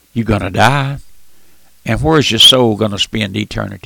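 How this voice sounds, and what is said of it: Squeaky old man's voice. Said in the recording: “my old squeaky voice”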